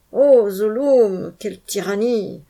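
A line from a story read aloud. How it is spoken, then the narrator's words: Grumbling. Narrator (French): grogna dans son coin le Jat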